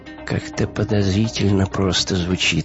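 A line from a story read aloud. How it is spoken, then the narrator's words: Muttering. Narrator (Russian): пробормотал Вим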